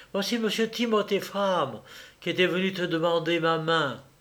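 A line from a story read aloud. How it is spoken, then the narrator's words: Lively exclamation. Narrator (French): s'écria Germaine avec vivacité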